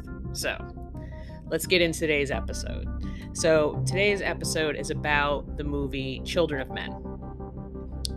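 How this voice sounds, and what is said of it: Voice sounds a little funky. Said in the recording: “we have like yellow pollen, green pollen, red pollen, white pollen ... my voice is a little funky. I'm not sick”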